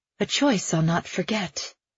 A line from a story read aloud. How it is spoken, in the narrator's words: Evangeline murmurs